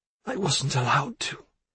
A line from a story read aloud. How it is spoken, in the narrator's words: she managed to whisper